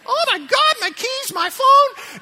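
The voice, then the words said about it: Panicky impersonation of someone. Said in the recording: “a spot on impersonation of you or somebody”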